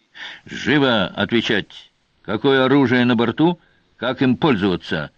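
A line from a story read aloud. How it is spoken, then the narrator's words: Barked. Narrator (Russian): рявкнул Сварог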